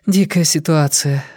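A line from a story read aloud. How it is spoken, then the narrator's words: Sighing. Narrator (Russian): вздохнула Вера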